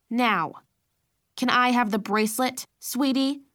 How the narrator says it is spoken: She asked, her voice growing stern

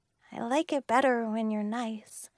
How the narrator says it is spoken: I said softly

